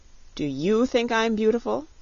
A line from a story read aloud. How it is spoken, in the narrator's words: she asked